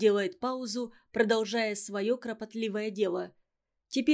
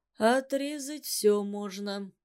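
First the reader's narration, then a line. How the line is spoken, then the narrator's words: Muffled objection. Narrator (Russian): глухо возражает Иван Иванович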